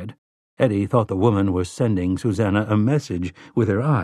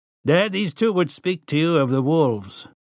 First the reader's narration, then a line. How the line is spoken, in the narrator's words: Tian grunted, then said